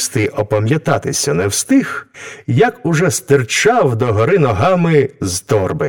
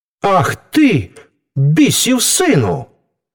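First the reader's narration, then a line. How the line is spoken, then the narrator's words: Angry exclamation. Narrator (Ukrainian): гнівно вигукнув Франческо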